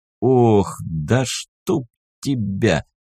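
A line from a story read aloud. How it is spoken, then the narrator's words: Muttered through gritted teeth. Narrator (Russian): процедил сквозь зубы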